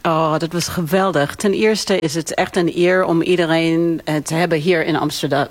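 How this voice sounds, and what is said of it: Light New York accent in Dutch. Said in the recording (Dutch): “je hebt een licht accent, want je komt oorspronkelijk uit New York”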